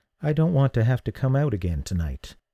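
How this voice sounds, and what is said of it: Softer voice. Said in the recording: “in a softer voice”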